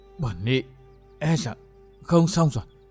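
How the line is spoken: Old woman, trembling, panting. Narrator (Vietnamese): Lão ni cô toàn thân run rẩy, hơi thở hào hển nói

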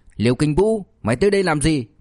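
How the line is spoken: Furious loud shout. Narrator (Vietnamese): Châu Văn Siêu lửa giận trong lòng liền bốc lên đầu, lớn tiếng quát

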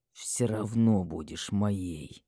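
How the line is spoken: Quiet growl, dragon. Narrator (Russian): Тихо прорычал дракон

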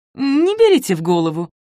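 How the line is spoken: Chuckling. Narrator (Russian): хохотнул Михаил

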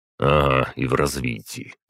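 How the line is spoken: Grumbling voice. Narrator (Russian): ворчащим голосом произнес я

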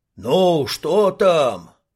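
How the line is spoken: Crowd shouting. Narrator (Russian): закричали из толпы

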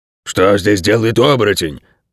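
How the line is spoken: Dog's growl. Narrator (Russian): прорычал пес

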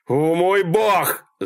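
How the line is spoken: Screaming. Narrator (Russian): завопил Малькольм

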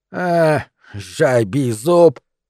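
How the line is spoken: Angry snapping retort. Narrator (Russian): сердито огрызнулась Карга

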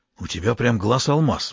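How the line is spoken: Admiring whisper. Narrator (Russian): восхищенно прошептал лаборант

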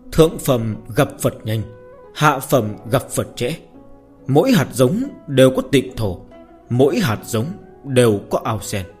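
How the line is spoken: Low muttering. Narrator (Vietnamese): Thái Kim Giản đưa lưng về phía thiếu chủ Lão Thành Long, thấp giọng lẩm bẩm

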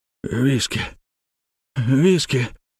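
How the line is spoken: Hoarse, groaning wheeze. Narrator (Russian): прохрипел он и со стоном

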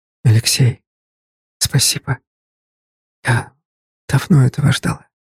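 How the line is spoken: Whisper. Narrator (Russian): она прошептала

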